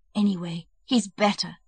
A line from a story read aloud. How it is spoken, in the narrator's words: they said in a whisper, smiling to one another